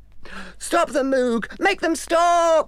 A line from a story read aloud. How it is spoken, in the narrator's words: everyone cried